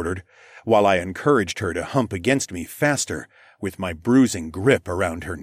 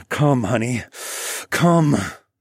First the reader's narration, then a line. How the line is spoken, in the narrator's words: I urged through gritted teeth